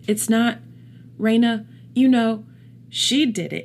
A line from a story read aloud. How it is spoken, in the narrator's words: he stammered